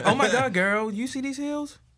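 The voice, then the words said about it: Exaggerated flamboyant stereotyped voice. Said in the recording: “That was too good of a gay impression.”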